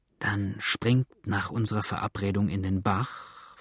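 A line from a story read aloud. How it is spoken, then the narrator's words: Whisper. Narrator (German): flüsterte der Mulatte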